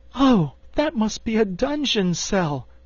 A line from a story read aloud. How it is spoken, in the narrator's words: cried Dorothy, horrified